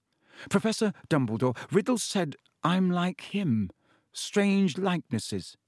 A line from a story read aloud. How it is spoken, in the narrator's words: he said